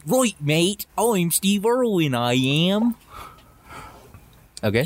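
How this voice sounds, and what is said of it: Poor put-on Australian accent. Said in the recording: “let me hear your Australian accent ... You're terrible at accents.”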